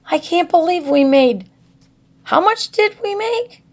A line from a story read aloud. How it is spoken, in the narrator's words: squealed Megan